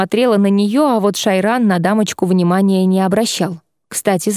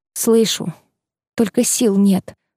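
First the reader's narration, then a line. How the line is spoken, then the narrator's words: Whisper. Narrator (Russian): прошептала я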